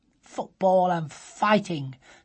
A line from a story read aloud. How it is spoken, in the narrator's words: said Sophie scornfully